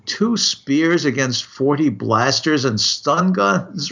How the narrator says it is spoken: Rossiter laughed

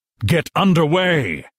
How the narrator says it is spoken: roared the intruder

